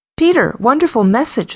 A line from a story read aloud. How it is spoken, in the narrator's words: Susan exclaimed